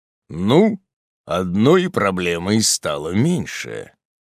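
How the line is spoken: Distant deep voice. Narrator (Russian): пробасил голос у дальней стены

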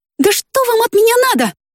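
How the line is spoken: Sudden shout. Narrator (Russian): внезапно закричала

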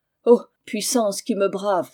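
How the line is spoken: Exclaimed. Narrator (French): s'écria

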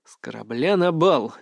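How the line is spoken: Sighing. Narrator (Russian): вздохнул я

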